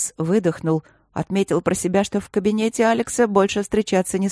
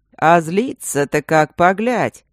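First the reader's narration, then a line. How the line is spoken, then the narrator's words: Snide, mocking. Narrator (Russian): ехидно сказал псевдо-Мартин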